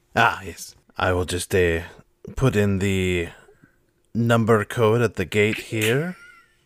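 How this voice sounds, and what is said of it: Put-on character accent. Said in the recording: “I've lost my accent, hold on.”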